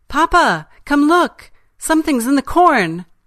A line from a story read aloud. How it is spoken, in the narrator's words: My niece would gasp